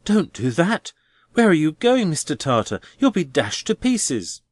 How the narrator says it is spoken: cried Neville

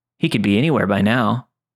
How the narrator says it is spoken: he said with a chuckle

